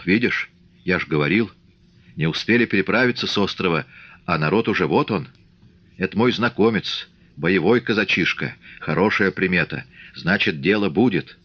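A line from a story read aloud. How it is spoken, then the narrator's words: Whisper. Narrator (Russian): Фомин шепнул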